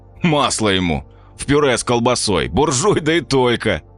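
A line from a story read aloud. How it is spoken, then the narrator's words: Laughing. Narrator (Russian): рассмеялся Серега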